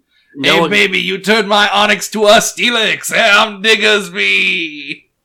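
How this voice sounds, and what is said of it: Sleazy catcalling cartoon character voice. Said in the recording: “his Diggersby impression, which involves all sorts of terrible come-on innuendo ... the kind of guy who would be catcalling women outside of New York construction zone”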